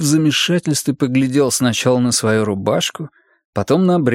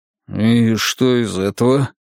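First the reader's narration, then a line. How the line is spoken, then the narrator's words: Wolf's uncertain drawl. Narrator (Russian): неуверенно протянул волк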